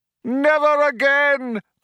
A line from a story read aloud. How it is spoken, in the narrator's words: cried the man